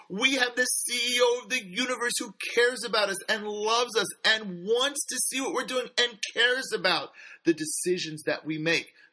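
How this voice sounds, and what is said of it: Loud, excited near-shouting. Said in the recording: “I'm screaming over here, but I get so excited”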